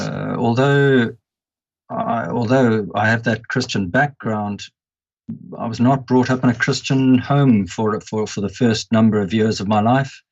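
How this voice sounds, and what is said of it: Zimbabwean accent. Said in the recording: “hence I carry the accent I do. ... I was born and brought up in Rhodesia, now Zimbabwe.”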